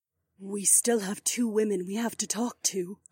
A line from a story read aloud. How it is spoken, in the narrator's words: Aliona whispered